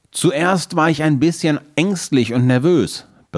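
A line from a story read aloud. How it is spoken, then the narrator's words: Excited telling. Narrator (German): berichtet er seinem Großvater aufgeregt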